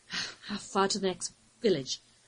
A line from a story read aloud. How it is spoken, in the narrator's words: Lou asked, between laboured gasps he could ill conceal